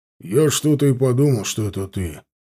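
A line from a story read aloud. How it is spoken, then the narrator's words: Grumbling. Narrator (Russian): проворчал он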